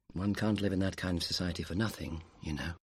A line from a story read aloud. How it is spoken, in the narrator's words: George said quietly